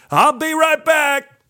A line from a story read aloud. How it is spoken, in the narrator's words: he hollered